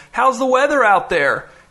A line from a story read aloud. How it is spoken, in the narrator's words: Freddy, his third grader, yelled